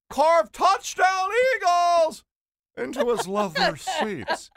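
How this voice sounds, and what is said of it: Singing in an imitated announcer voice. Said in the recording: “my Merrill Reese impression ... you sounded like Mrs. Doubtfire”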